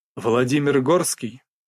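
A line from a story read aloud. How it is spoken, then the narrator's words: Dry clarifying question. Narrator (Russian): Сухо уточняю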